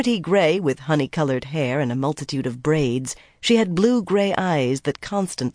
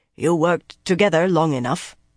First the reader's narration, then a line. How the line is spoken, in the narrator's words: Baonin said in her heavy Tarraboner accent